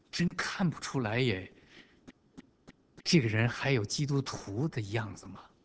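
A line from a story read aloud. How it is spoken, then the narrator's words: Inward muttering. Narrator (Chinese): 在朋友、在同事，甚至在自己家人的心里都在嘀咕着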